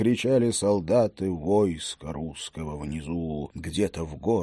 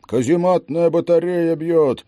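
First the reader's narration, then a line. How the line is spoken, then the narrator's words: Small musketeer shouting. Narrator (Russian): закричал небольшого роста рыжий курносый мушкетер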